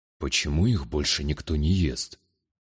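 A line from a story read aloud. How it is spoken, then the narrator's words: Whispered question, warrior. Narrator (Russian): Шепотом поинтересовался воитель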